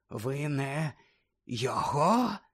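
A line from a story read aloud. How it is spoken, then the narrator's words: Whisper. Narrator (Ukrainian): зашепотів Кравч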